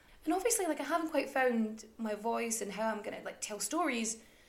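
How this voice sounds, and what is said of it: Mixed Irish and Scottish accent. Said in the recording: “my accent can sort of weave in and out between sort of Irish and Scottish and some weird no man's land in between the two”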